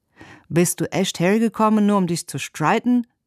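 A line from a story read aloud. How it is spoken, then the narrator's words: Calling out. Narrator (German): rief er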